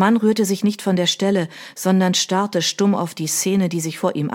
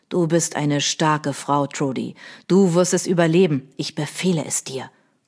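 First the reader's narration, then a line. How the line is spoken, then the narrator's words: Softened growl. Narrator (German): knurrte er, aber von seiner üblichen Härte war nichts zu spüren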